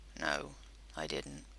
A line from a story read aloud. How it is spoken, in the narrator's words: he said softly